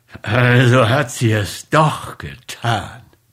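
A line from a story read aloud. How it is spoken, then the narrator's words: Angry muttering through teeth. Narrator (German): murmelte er durch die Zähne und ballte wütend die Fäuste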